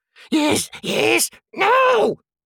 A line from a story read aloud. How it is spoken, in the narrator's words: shrieked Gollum